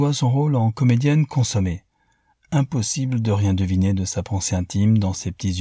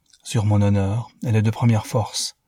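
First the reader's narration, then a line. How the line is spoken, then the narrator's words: Continued quietly. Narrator (French): continua-t-il tout bas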